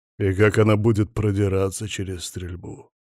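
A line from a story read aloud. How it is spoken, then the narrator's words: Gloomy question. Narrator (Russian): мрачно вопросил я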